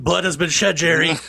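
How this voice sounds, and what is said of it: Imitates another person's voice. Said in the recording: “That's a pretty good Buscemi. ... That's pretty good. ... one successful impersonation”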